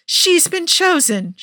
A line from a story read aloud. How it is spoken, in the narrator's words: she screams at Miss Andy